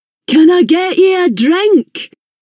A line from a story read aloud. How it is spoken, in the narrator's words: yelled over the top of the next song